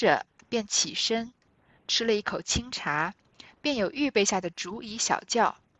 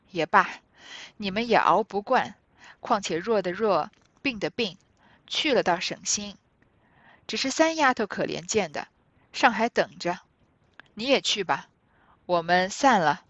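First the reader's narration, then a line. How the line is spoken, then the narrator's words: Laughing elderly woman. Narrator (Chinese): 贾母笑道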